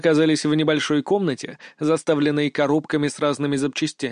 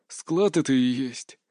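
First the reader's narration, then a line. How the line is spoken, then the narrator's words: Quiet. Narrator (Russian): тихо ответил Синицын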